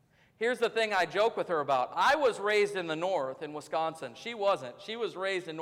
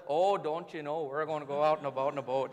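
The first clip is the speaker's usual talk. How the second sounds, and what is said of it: Imitated North Dakota/Minnesota accent. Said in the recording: “she has a North Dakota, Minnesota accent ... she's got that, a little bit of that”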